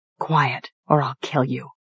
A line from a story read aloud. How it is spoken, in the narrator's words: I whispered